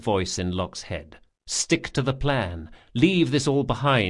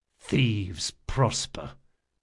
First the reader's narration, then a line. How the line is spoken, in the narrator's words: muttered Locke under his breath